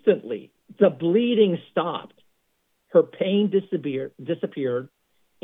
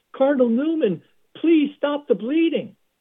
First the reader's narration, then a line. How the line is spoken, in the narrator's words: she was hemorrhaging, and she clutched a prayer card of Blessed John Newman and cried out